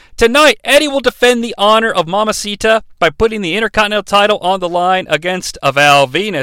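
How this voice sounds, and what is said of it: Usual voice. Nothing is said of it.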